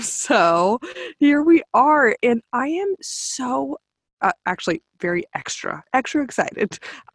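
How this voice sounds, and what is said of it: Stuffy, congested sick voice. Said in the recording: “I sound a little weird, a little stuffy, your girl's a little sick”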